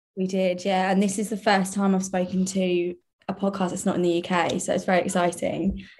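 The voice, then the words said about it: Posh British accent. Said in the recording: “I'm obsessed with your accent... people say I sound quite posh”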